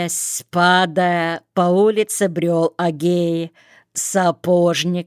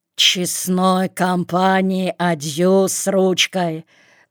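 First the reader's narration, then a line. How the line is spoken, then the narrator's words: Wheezed. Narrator (Russian): Просипел он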